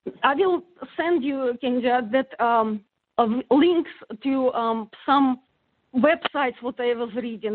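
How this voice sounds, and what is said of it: Non-native English accent. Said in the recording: “Pardon my accent.”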